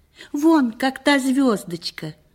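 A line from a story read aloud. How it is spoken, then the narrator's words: Joyful exclamation. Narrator (Russian): воскликнул он радостно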